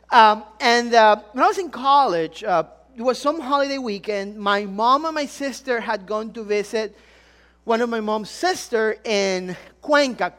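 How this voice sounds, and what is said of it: Ecuadorian Spanish accent in English. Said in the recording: “I'm really from Ecuador. Some of you, if the accent didn't give it away.”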